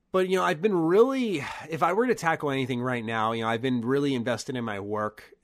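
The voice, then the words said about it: Hoarse, fading voice. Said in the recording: “my voice went away there. Now you can tell it's really going away.”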